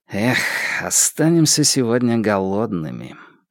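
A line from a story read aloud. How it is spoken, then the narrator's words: Sighing. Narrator (Russian): Ду вздохнул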